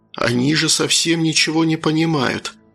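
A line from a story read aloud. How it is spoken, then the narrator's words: Excited cultured inner whisper. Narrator (Russian): прошептал возбужденный интеллигентный голос у меня в голове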